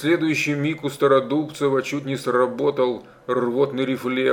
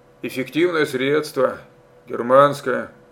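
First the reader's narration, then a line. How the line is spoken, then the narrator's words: Muttering. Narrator (Russian): пробормотал Степан Солдатеевич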